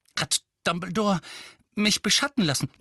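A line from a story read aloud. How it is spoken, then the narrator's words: Panting. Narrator (German): keuchte Harry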